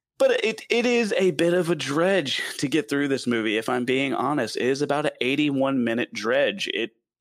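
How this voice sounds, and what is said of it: Southern accent. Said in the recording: “my southern accent. I'm not very good at pronouncing names too well.”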